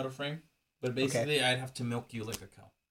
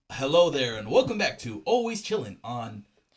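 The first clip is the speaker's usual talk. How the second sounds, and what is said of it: News anchor voice. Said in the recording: “You want to do a news voice?”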